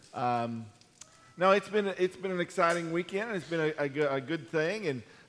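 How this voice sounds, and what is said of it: Hoarse, strained voice. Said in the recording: “lost my voice ... from singing really, really hard today”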